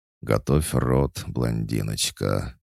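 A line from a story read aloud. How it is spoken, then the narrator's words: Purring, openly seductive. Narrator (Russian): уже откровенно мурлыкая заявил Громов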